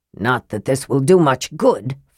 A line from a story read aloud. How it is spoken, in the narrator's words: Flint growled